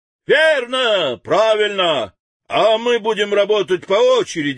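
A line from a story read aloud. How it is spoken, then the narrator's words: Workers shouting together. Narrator (Russian): закричали литейщики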